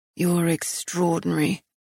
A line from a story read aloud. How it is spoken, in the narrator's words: he murmured